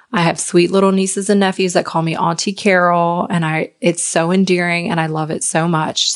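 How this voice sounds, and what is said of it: Slight Southern US accent. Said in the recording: “I'm from a really small town in Virginia. I'm sure you can probably hear the accent. It's a little southern.”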